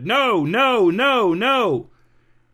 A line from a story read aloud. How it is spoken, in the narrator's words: the bullhorn woman and her colleagues without bullhorns all shouted